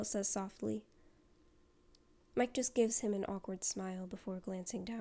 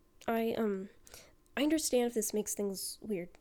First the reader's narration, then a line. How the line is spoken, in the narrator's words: he says quickly